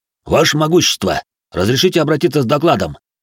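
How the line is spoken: Loud bark into ear. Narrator (Russian): рявкнул Рэй старику на ухо

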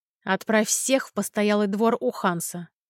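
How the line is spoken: Growling. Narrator (Russian): прорычал Адриан

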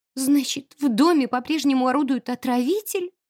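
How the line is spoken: Sudden thin-voiced question. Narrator (Russian): Вдруг тоненьким голоском спросила Леона

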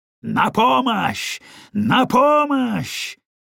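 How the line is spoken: Thunderous vengeful shout. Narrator (Russian): Его охватила жажда мести, и он крикнул громовым голосом

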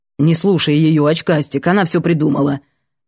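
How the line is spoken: Grumbling. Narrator (Russian): проворчал Воробушек

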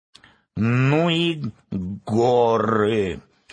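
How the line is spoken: Tired hoarse croak. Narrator (Russian): устало прохрипела ворона

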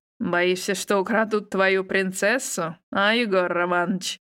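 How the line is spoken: Mocking chuckle. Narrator (Russian): хохотнул зампрефекта

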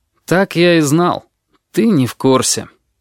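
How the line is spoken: Sighing. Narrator (Russian): вздохнул черный

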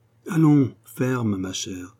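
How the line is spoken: Murmuring. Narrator (French): murmura la Genevraie

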